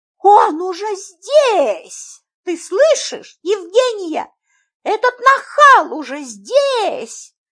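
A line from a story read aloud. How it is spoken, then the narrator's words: Shriek. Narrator (Russian): Завопила она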